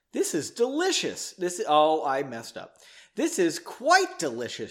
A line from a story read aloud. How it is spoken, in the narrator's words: she exclaimed